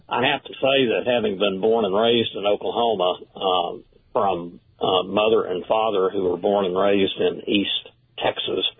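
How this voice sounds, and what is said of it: Hoarse, fading voice. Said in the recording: “excuse me, I'm losing my voice here.”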